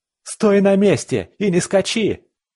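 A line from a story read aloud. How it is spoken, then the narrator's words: Madman's yell. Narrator (Russian): заорал псих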